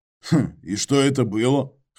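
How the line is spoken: Skeptical grunt. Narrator (Russian): хмыкнул я

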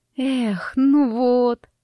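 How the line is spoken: Disappointed exhale. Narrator (Russian): разочарованно выдохнула

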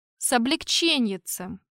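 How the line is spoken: Grumbling. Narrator (Russian): проворчал я

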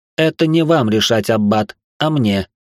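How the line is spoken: Snort. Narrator (Russian): хмыкнул я

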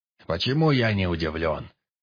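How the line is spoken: Grumble. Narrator (Russian): Пробурчал Полтораш

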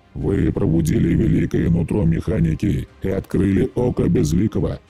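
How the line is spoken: Growl. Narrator (Russian): прорычал Вердри

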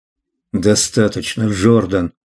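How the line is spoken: Muttered. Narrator (Russian): пробормотал Клай

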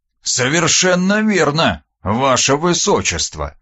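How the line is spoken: Gloomy, sighing. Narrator (Russian): хмуро кивнул тот и вздохнул

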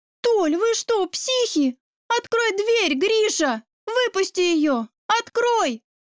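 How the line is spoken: Screaming frantically. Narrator (Russian): завопила она

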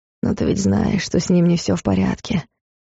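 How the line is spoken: Hoarse whisper. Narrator (Russian): сипло прошептал внутренний голос

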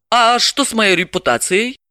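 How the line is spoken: Laughing. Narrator (Russian): Рассмеялась Галина

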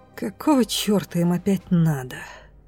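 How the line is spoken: Grumbling. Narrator (Russian): пробурчала Лофорд

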